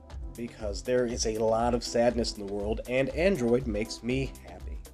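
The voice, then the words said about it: Sick, under-the-weather voice. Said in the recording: “Pardon my voice. ... I'm under the weather. I'm not feeling 100%.”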